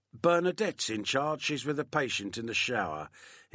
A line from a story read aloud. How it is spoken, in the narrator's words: replied in a bored voice